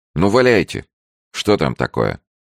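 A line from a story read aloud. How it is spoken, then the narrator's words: Irritated interruption. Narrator (Russian): раздраженно перебил говорившего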